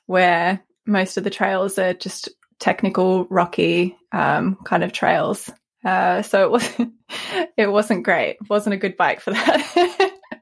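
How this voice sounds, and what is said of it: Australian accent. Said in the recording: “a little bit of a twang ... my dodgy accent ... I'm Australian”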